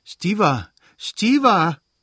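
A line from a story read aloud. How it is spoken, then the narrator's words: Flustered, embarrassed call. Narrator (German): rief Dolly errötend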